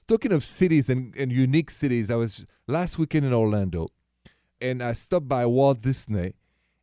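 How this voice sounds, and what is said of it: Thick Parisian French accent. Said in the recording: “this thick accent of mine, it's from Paris”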